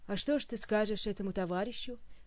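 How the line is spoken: Chuckling gnome. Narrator (Russian): хохотнул гном

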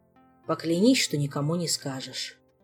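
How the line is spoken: Heavy sigh. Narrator (Russian): Тяжко вздохнул мистралец

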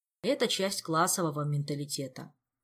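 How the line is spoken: Serious sigh. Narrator (Russian): серьезно вздохнул Жак

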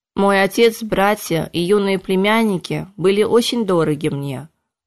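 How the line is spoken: Even, level voice. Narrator (Russian): ровным голосом произнес император

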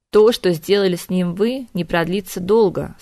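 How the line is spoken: Calm pronouncement. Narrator (Russian): спокойно изрекла женщина

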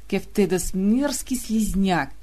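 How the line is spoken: Hissing in unison. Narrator (Russian): в один голос с ним прошипела королева Андромаха

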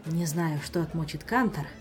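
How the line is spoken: Sighed. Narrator (Russian): вздохнул Эспада

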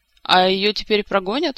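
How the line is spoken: Plain. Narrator (Russian): спросила Акрила

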